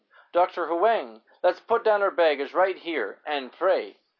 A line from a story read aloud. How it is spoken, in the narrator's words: Gladys suddenly burst out sobbing and cried in desperation